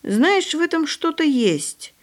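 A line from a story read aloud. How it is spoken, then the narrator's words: Thoughtful. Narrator (Russian): задумчиво произнес пан Роман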